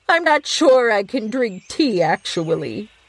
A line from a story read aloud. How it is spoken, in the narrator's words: said, almost starting to laugh